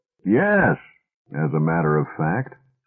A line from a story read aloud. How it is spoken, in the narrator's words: said George, heaving an enormous sigh